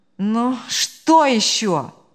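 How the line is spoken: Groaning exclamation. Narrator (Russian): он со стоном воскликнул

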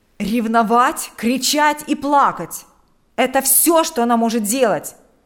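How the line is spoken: Loud indignation. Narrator (Russian): Громко возмущался

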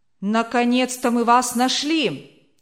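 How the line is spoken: Shout. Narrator (Russian): крикнули враги

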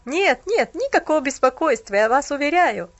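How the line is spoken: Young man's awkward laugh. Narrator (Russian): засмеялся молодой человек, стараясь скрыть неловкость

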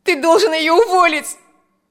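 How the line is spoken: Shout. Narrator (Russian): закричала Алевтина

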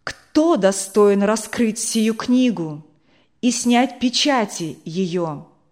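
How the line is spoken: Loud proclamation. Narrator (Russian): ангела, который громким голосом провозглашает

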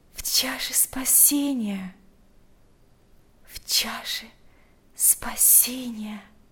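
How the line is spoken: Whisper. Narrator (Russian): прошептала Марфа

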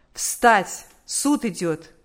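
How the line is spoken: Commanding voice. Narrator (Russian): судебный полицейский повелительным голосом сказал

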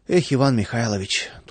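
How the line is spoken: Sigh. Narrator (Russian): только и вздохнул Владыкин

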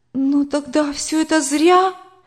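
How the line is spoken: Near-tearful exclamation. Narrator (Russian): воскликнула я, чуть не плача

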